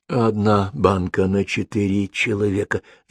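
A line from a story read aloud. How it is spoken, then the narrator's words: Whisper. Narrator (Russian): зашептал Соболь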